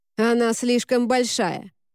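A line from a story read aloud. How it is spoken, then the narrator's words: Bark. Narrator (Russian): рявкнула Сен-Клер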